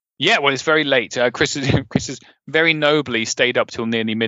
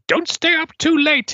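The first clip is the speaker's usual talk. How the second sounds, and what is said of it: Imitates a woman's voice. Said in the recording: “That was an uncanny impression ... She sounded far more feminine and delightful than I've made her seem”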